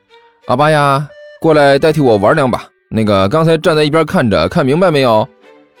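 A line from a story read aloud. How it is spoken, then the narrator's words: Chuckling. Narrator (Chinese): 甘球嘿嘿一笑，对一边的刘阿八说道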